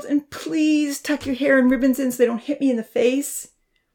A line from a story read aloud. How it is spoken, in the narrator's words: Rosa wailed